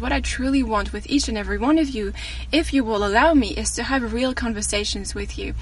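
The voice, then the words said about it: French accent. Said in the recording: “my accent, sorry. And I tell them I'm French”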